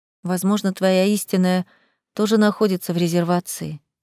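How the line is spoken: Quiet. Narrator (Russian): тихо добавила я

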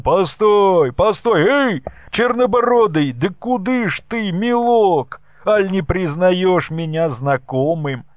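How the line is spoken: Shouting after someone. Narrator (Russian): закричал вслед Михайлову и Ермаку

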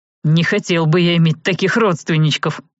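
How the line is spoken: Wry snort. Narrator (Russian): хмыкнул Серж

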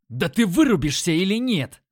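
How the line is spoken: Yelled. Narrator (Russian): Заорал я

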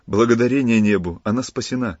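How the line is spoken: Exclaiming. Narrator (Russian): воскликнул Филипп

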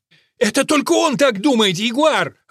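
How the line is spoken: Yelling snake. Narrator (Russian): орал удав

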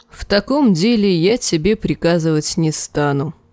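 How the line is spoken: Weary. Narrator (Russian): устало сказал Роб

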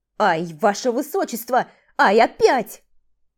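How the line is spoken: Loud yell behind door. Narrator (Russian): завопил за дверью Титор, забыв напрочь о конспирации

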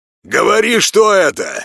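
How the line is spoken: Barking man. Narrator (Russian): рявкнул мужик в балаклаве

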